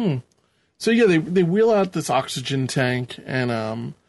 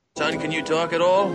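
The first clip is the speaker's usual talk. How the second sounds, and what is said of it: Put-on New York accent. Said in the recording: “where did that New York accent come from?”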